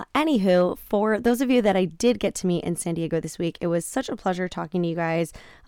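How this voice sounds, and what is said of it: Raspy, croaky voice. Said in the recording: “my voice is a little bit raspy ... I do feel just a little like croaky right now”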